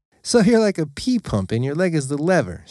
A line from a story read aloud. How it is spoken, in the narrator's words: said, laughing to herself